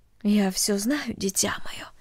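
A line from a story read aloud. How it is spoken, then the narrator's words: Mother speaking softly. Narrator (Russian): тихо сказала мать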